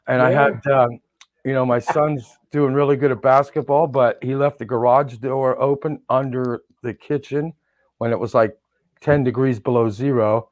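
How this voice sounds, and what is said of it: Muffled, mumbling Godfather-like voice. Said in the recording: “I got some gauze in because I had some teeth pulled. So I'm doing my Godfather impression”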